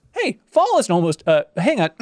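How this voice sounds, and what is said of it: Impression of a listener's voice. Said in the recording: “I was doing my Doreen impersonation”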